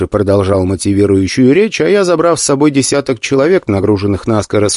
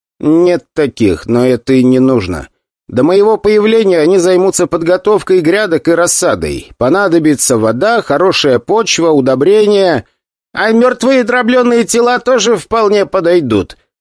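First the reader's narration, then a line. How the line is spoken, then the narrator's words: Loud enough for all. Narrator (Russian): он сказал достаточно громко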